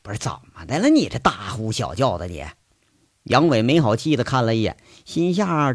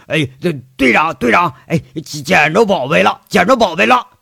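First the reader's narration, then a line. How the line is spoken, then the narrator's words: Happy excited shouting. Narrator (Chinese): 秦三河一脸笑意……嘴里喊着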